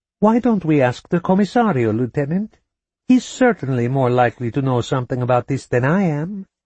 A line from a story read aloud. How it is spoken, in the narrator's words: she said, too brightly